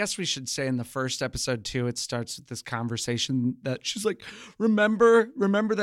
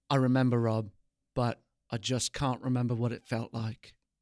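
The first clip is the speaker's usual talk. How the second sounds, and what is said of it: Posh English accent. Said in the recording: “his type of English accent ... Pretty good. Nice and posh.”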